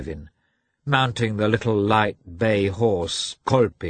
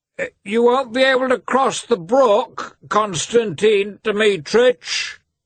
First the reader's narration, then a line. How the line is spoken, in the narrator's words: the coachman called out